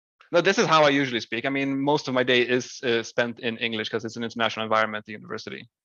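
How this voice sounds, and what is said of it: Slight foreign accent in English. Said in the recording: “Your little accent ... I wouldn't say it's bad. I understand everything you say.”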